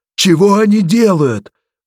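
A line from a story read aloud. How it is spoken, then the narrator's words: Yell. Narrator (Russian): завопил он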